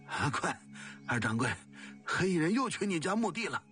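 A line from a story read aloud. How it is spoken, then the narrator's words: Breathless, panting. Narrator (Chinese): 杨官气喘吁吁地告诉他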